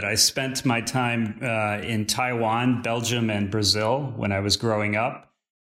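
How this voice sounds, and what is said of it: American accent. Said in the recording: “judging by your accent, it sounds like you're originally from the US”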